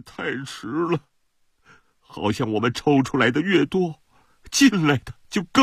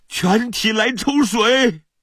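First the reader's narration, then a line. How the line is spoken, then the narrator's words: Shout. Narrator (Chinese): 我喊道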